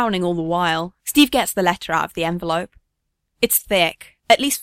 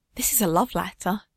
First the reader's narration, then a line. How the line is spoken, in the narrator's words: he whispers